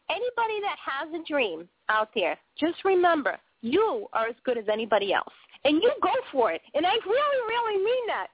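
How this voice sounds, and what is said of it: Boston accent. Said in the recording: “my weird Boston accent, my funky, funky Boston accent”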